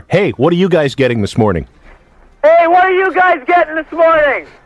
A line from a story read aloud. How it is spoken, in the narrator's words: yell to the other car